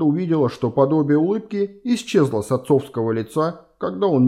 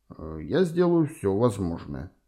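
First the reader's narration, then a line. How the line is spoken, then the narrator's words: Grim. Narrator (Russian): мрачно сказал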